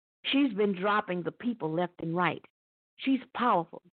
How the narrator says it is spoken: said Wodoon

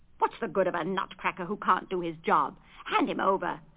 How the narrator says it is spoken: snorted Fritz

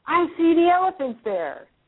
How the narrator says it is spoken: Tammy exclaims

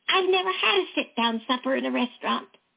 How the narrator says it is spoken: cried

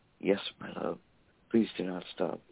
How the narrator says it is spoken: her lips sweetly whispering

